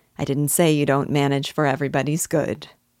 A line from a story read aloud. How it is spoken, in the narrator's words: said her father, with a quiet laugh